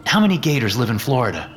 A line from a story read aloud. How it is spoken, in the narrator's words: Gerald sighs